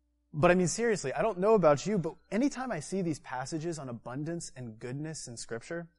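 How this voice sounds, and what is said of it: Usual voice. Nothing is said of it.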